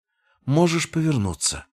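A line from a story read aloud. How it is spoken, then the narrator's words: Weary. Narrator (Russian): устало проговорила Элара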